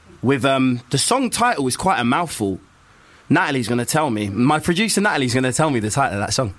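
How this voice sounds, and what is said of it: Usual voice. Nothing is said of it.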